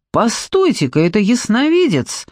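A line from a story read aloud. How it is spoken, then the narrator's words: Exclaimed. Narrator (Russian): воскликнул Луп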